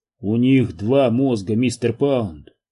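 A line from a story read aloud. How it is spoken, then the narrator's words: Gloomy. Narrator (Russian): мрачно сообщил доктор Като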